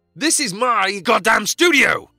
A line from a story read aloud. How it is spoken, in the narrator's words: screamed Jack